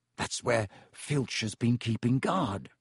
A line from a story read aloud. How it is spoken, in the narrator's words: Ron muttered